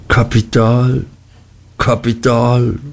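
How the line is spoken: Sighed. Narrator (German): seufzte Mr

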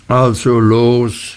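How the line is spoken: Calling to horse. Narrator (German): rief er seinem faulen Pferde zu

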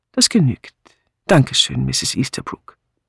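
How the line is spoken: Calm. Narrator (German): der Inspektor sagte ruhig

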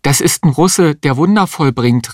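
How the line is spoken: Call out. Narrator (German): rief die Existenzialistin

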